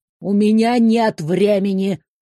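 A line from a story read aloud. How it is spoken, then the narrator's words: Irritated interruption. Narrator (Russian): раздраженно перебили ее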